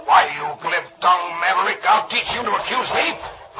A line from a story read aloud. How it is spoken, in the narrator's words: the stranger snarls